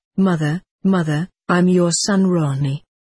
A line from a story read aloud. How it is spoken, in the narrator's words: saying in a very pathetic voice